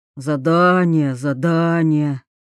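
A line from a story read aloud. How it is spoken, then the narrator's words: Drawling. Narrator (Russian): протянул Аллан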